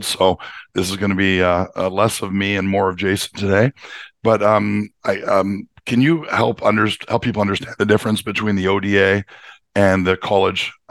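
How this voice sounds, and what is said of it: Voice with a cold. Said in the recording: “I've got a bit of a cold,”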